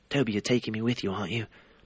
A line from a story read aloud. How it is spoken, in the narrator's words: Harry asked anxiously